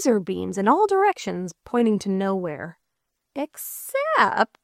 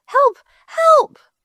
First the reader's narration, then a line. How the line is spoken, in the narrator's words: she cried out through the ground to the surface